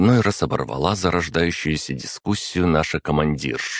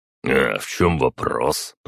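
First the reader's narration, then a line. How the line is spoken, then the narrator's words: Grumbling. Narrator (Russian): проворчал Марат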